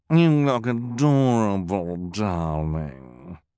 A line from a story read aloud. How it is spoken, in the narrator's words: purred Esme